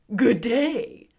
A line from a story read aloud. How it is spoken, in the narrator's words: said the scarecrow in a rather husky voice